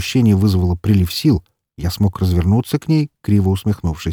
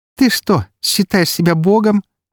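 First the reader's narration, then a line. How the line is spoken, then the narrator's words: Girl's ringing laugh. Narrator (Russian): звонко рассмеялась девушка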